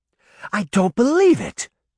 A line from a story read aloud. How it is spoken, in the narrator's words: Daphne gasped